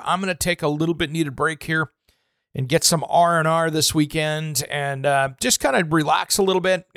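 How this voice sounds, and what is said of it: Hoarse, worn-out voice. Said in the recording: “as you can tell, my voice is a little hammered.”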